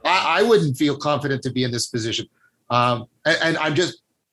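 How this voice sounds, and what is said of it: Hesitant, halting speech. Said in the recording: “you can hear the hesitation in my voice. I'm very hesitant”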